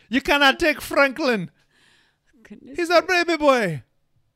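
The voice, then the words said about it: Put-on accent. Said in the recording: “You were just going to do it in the accent.”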